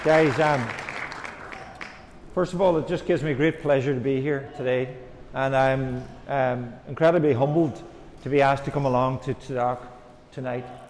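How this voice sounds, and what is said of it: Irish accent. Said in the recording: “I'm Irish. My accent, I hope, is not too difficult to understand.”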